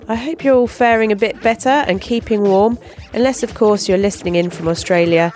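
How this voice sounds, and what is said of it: Congested voice from a cold. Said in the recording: “As you might be able to hear, I've got a bit of a cold”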